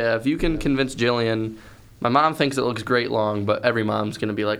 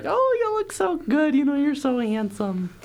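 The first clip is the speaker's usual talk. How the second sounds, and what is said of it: Imitates a doting mother's voice. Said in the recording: “good mom impression”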